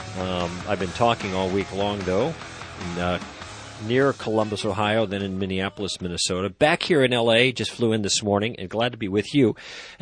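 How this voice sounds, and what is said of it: Slightly nasal voice. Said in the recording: “I sound a little nasal today”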